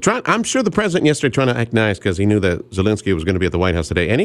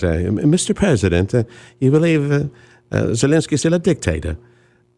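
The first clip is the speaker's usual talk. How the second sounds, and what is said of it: Put-on posh English accent. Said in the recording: “foofy English accent guys”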